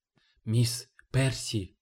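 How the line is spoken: Breathless whisper. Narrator (Russian): задохнувшись, прошептал гарп

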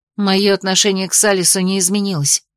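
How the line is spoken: Plain. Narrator (Russian): ответила

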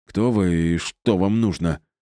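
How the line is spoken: Suddenly hoarse question. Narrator (Russian): спросил Пьер внезапно охрипшим голосом

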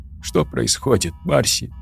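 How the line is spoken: Sobbed. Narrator (Russian): всхлипнула Тори

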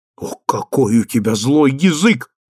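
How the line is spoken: Exclaiming. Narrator (Russian): воскликнула мать

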